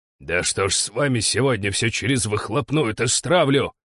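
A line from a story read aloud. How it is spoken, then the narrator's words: Angry bark, boss. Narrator (Russian): Зло рявкнул начальник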